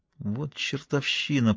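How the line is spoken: Through gritted teeth. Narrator (Russian): процедила сквозь зубы Сакс

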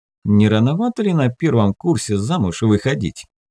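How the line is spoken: Mocking question. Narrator (Russian): насмешливо спросил Саш

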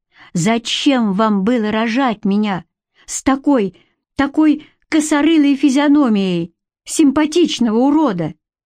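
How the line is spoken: Angry exclamation. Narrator (Russian): Какой именно вопрос его особенно разозлил, или их количество вывело из себя, ибо он воскликнул

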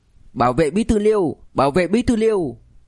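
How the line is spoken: Loud shout. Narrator (Vietnamese): Một tiếng hét lớn

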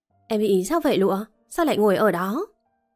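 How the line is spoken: Loud questioning. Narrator (Vietnamese): cậu Tư lớn tiếng hỏi thêm một lần nữa

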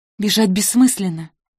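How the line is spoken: Quiet but audible. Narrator (Russian): проговорила тихо, но так, чтобы Михаил услышал

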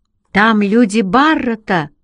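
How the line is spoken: Shouted. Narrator (Russian): крикнул я Пауле

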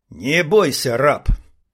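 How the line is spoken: Through gritted teeth. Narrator (Russian): бросила сквозь зубы

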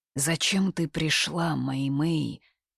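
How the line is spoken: Whispered in borrowed voice. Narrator (Russian): прошептала ей на ухо нечто голосом Хань Сюаня

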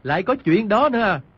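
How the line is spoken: Disbelieving. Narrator (Vietnamese): Quách Tĩnh không tin, bèn nói

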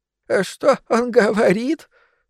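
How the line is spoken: Question breaking off sobbing. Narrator (Russian): спросил Игорь, прервав рыдание на середине

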